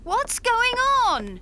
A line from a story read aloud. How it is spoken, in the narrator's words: She shouted